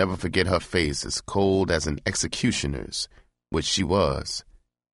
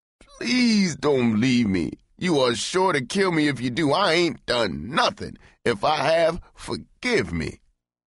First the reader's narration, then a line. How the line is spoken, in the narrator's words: His agonized eyes walled up at her as he wailed